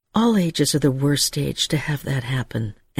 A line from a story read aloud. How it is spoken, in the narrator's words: Anna had murmured